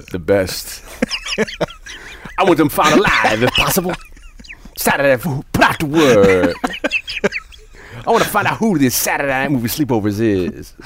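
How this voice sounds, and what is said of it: Impression of The Warriors character. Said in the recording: “doing a voice of an actor in a movie ... He's doing an impression of a character in a movie ... from The Warriors, the guy with the big glasses”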